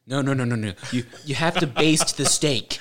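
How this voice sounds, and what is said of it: Gordon Ramsay impression. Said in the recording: “Into Gordon Ramsay accent here.”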